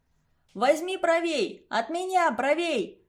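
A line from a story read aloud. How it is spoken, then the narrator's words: Shouting. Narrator (Russian): кричал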